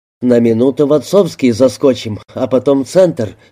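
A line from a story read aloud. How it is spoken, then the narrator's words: Plain. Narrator (Russian): сказал Саша Алику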